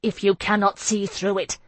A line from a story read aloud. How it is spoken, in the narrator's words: I said fiercely